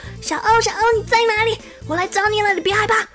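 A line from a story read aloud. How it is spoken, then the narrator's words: Loud shouting. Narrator (Chinese): 一边大声喊叫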